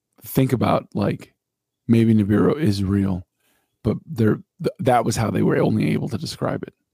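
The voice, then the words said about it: Strained, failing voice. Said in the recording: “my voice is starting to just fucking like disintegrate”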